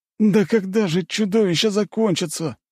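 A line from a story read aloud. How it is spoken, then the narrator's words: Groan. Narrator (Russian): простонал кто-то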